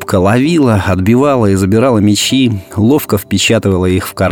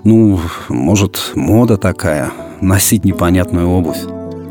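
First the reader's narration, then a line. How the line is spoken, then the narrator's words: Embarrassed mumble. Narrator (Russian): Мама, увидев, как занервничал сын, засмущалась и пробормотала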